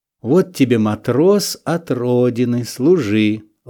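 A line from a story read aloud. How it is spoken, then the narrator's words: Gentle, affectionate. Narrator (Russian): ласково говорил он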